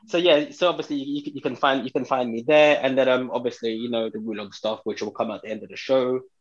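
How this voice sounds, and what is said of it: British accent. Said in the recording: “It's a British accent.”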